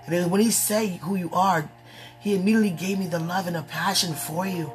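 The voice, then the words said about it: Hoarse voice. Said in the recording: “excuse my hoarse voice”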